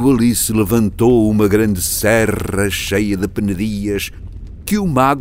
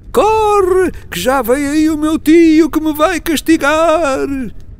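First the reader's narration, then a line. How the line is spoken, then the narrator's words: Boy shouting again. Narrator (Portuguese): o rapaz tornou outra vez a gritar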